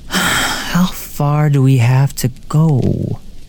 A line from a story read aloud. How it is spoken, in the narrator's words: say, or sighing